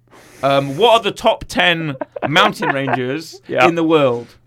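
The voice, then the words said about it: Imitates another person's voice. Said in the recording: “my Warwick Davis impression”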